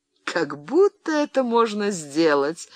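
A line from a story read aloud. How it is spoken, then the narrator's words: Laughing. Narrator (Russian): рассмеялась она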